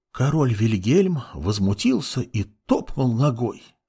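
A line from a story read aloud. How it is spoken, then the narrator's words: Mother's soothing whisper. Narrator (Russian): шептала мать ребенку сказку, чтобы хоть как-то отвлечь его от голода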